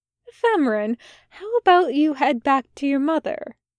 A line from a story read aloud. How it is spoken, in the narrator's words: Aziraphale suggested kindly